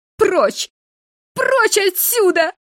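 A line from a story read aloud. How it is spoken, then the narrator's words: Sobbing, repeating. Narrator (Russian): рыдая, повторяла она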